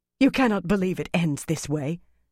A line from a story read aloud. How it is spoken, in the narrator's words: Aramilla said hoarsely